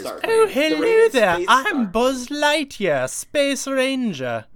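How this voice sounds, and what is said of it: Put-on British accent. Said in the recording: “kind of like if he turned British”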